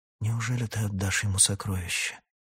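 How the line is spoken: Whispered in ear. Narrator (Russian): прошептал Яхан на ухо Раканону

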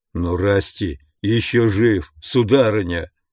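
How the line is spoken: Moaned. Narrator (Russian): простонал Джош

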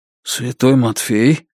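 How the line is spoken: Whisper. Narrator (Russian): прошептал Белизариус

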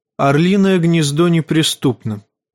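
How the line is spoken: Calm voice. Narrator (Russian): спокойным голосом проговорила Лиза Арен

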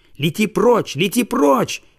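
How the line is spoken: Small child shouting. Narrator (Russian): кричал и малыш-коротыш

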